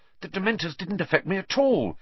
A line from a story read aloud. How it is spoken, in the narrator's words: Harry said excitedly